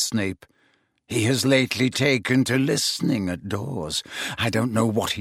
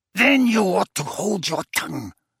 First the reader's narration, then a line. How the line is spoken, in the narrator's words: snarled Bellatrix